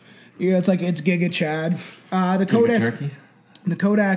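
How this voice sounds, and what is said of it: Usual voice. Nothing is said of it.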